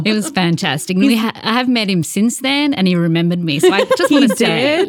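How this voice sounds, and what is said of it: Distinctive regional accent. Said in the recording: “this accent doesn't let me get away with much shit.”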